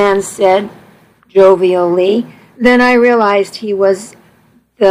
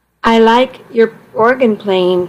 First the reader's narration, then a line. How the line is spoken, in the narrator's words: Tom said